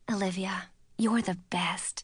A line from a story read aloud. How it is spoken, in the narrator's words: whispered